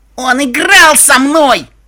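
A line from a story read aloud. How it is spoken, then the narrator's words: Yelling. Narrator (Russian): Я орала в своем номере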